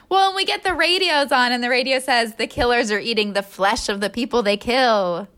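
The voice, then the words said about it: Radio announcer voice. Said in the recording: “I like your radio voice.”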